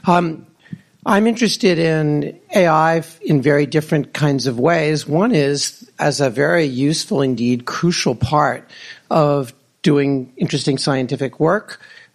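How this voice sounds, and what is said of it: Slightly hoarse, strained voice. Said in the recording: “I'm slightly losing my voice.”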